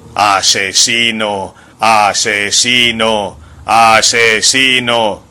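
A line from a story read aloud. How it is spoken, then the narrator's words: Loudspeakers blaring. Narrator (Spanish): bramaron los altavoces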